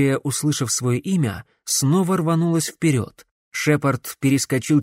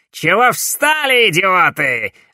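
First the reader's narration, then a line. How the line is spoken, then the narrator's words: Barked order. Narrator (Russian): рявкнула она своим слугам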